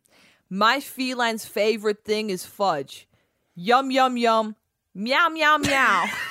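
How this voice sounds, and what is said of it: Put-on New York accent. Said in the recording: “in a New York accent”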